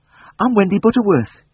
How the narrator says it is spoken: gasped

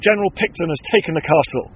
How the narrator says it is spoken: Lieutenant Tyler shouted

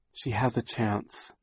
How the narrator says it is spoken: Violet said quietly to Klaus

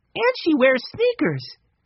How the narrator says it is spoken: Benny said excitedly

